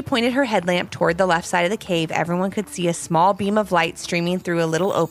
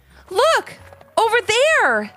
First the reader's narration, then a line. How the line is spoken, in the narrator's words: Ivy called out